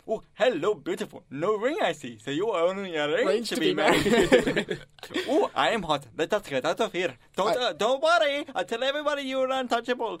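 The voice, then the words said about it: Put-on Indian accent. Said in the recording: “that Indian accent”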